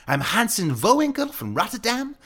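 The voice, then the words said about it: Ridiculous put-on Dutch accent. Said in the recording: “I pretended to be a European exchange student from Rotterdam ... I used like this ridiculous accent.”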